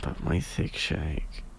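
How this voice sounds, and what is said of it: Soft whispery ASMR voice. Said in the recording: “ASMR voice”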